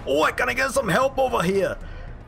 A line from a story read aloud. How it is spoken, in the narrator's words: he shouts over to you guys